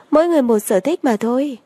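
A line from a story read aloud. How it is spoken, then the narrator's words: Smiling. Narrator (Vietnamese): Lâm Triều Anh mỉm cười nói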